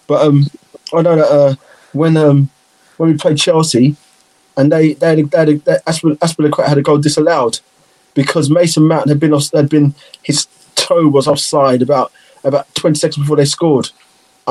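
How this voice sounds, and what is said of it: Liverpool accent. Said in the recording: “Obviously, I'm Liverpool, so you can hear my accent.”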